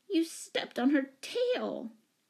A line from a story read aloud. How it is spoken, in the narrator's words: wailed Betsy